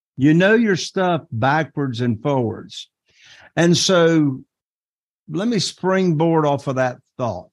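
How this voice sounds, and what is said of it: Eastern North Carolina Southern accent. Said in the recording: “my North Carolina Eastern Southern accent”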